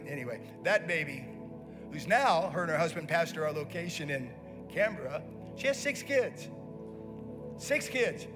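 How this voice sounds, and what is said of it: American accent. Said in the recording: “they'd never even heard an American accent before”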